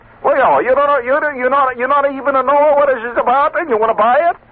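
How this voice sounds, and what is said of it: Bad put-on Greek accent. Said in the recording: “that's a bad Greek accent”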